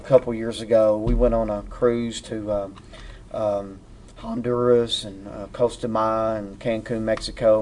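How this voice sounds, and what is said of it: Kentucky hillbilly accent. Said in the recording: “you got an accent... I talk worse”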